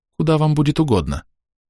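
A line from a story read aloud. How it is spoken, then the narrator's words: Calm. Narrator (Russian): она спокойно сказала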